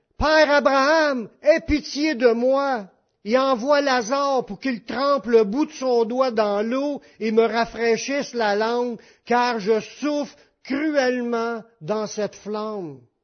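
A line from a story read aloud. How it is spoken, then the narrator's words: Cried out. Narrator (French): Il s'écria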